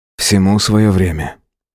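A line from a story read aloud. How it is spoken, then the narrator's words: Soft gentle voice. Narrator (Russian): мягко проговорил он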